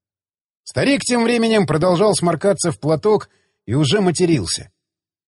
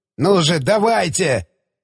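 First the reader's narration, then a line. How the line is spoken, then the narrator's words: Urgent growl. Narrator (Russian): прорычал Мустафа, понимая, что еще пара секунд, и весь его план полетит к чертям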